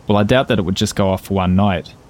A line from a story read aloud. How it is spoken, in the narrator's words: said Van Nieuwen